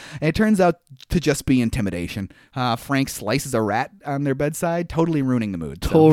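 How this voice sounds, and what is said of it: Usual voice. Nothing is said of it.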